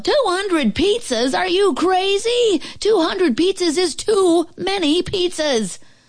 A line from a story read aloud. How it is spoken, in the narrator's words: The lady at the restaurant yelled